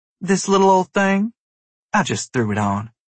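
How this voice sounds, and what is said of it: Bad fake Scarlett O'Hara Southern accent. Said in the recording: “putting on a terrible Scarlett O'Hara fake accent”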